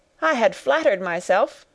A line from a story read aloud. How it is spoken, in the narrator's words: cried young Wharton with a laugh